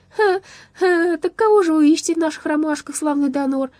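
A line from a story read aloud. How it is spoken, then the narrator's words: Giggling question. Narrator (Russian): продолжая хихикать, спросил Лопастик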